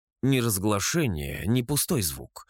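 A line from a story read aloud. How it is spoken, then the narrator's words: Grumbling. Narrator (Russian): буркнула она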